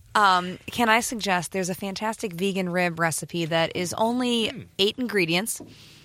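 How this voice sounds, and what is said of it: Calm public-radio announcer voice. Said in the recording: “your NPR voice”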